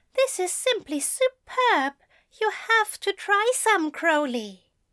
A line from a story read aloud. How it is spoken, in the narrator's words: he exclaimed